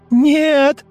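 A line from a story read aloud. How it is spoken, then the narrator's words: Screaming. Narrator (Russian): Завопила она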